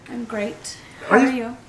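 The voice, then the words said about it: Polite customer service voice. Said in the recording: “¿Por qué te cambió la voz? ... customer service voice”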